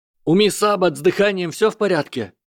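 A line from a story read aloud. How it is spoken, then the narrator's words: Shout. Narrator (Russian): крикнул генерал Поттер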